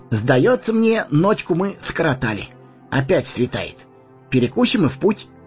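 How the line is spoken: Cheerful. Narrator (Russian): бодро сказал он

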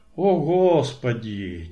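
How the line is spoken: Heavy sigh. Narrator (Russian): тяжело вздохнул Кротов

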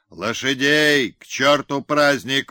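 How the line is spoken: Shouting. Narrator (Russian): кричал Барышников

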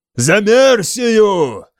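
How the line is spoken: Roared. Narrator (Russian): взревел я

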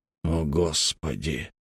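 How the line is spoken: Muttered. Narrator (Russian): пробормотал Малдон

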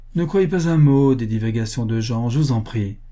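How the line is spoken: Plain. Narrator (French): dit André

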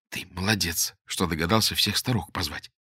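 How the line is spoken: Whisper. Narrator (Russian): шепнула Боголюбову Лера

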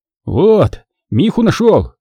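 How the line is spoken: Spluttering, bewildered. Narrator (Russian): Отфыркиваясь от воды, растерянно проговорил он

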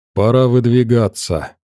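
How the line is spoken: Dry reply. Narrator (Russian): мужчина сухо ответил

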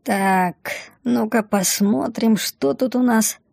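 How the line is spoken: Mumbling. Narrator (Russian): пробормотала Мина

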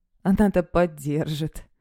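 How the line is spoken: Scoffing grunt. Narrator (Russian): хмыкнул он

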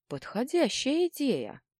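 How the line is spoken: Thoughtful. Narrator (Russian): задумчиво произнес Дрык

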